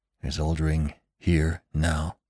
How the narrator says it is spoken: whispered Venters

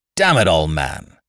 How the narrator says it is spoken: roared Gregory Rolfe

